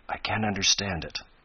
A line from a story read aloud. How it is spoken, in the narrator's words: Ned murmur